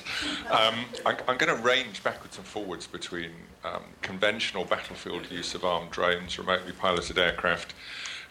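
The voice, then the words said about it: British accent. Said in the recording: “my terrible British accent”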